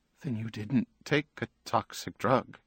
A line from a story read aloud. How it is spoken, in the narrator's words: Her voice wavered